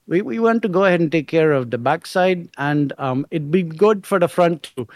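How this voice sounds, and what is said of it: Put-on Indian accent. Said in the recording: “he's an Indian guy ... I'm sorry if that's offensive, that accent”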